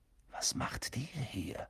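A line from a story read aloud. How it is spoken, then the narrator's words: Whispering. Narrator (German): flüsterte Harry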